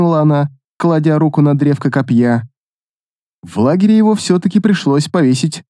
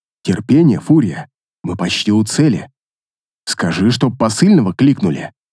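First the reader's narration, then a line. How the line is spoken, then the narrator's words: Measured even tone. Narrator (Russian): Размеренным тоном произнес рыцарь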